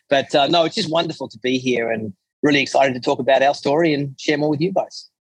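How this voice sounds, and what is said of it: Strong Australian accent. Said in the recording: “this outrageous Australian accent I have”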